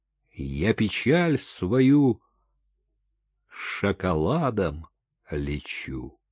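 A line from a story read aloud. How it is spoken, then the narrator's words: Sad. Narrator (Russian): она грустно сказала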